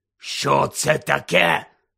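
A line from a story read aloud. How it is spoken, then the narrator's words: Hoarse question. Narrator (Ukrainian): захрипло спитав дядько Вернон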